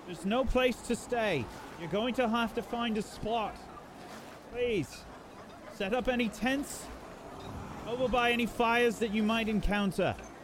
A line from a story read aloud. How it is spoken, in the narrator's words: You can probably hear guards yelling